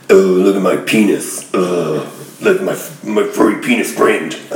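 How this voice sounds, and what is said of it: Cartoon monster character voice. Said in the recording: “you can do an impression of the Hormone Monster”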